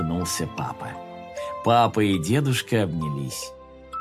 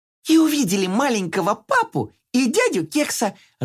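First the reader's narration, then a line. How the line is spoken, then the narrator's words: Joyful. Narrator (Russian): радостно закончила Карамелька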